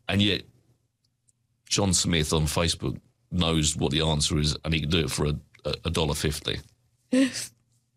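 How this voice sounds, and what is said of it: Sarcastic delivery. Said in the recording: “being sarcastic.”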